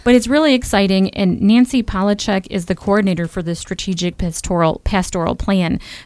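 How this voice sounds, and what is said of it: Hoarse, fading voice. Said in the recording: “I'm actually losing my voice.”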